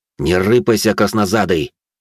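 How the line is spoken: Angry hiss. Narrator (Russian): зло прошипел я

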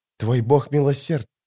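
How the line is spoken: Whispered. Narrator (Russian): прошептала Скалла

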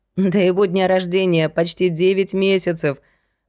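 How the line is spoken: Laughing. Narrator (Russian): рассмеялась Настя

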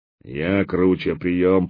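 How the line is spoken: Repeated in deep bass. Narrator (Russian): повторял басом человек-скала

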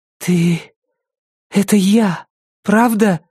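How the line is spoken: Breathless. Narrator (Russian): выдохнула Рози

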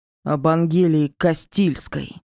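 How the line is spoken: Spat angrily. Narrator (Russian): зло выплюнул Оли

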